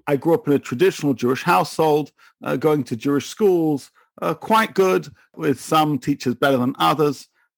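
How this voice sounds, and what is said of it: English accent. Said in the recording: “you can tell from my accent, I'm from a little place called England”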